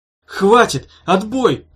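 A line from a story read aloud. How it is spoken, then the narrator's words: Yelled. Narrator (Russian): заорал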